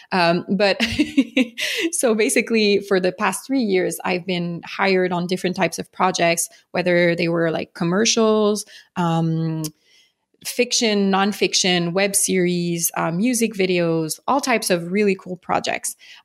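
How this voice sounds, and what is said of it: French Canadian accent. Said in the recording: “I'm from Montreal, Canada, for those who don't know, hence the French accent.”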